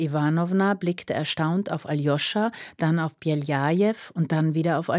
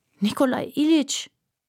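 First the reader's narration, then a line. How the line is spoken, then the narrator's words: Groaning. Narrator (German): stöhnte Aljoscha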